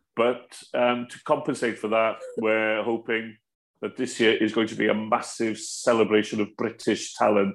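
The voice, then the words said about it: Welsh accent. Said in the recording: “I absolutely love your accent. I could just listen to it all day and night. ... as we would say in Welsh”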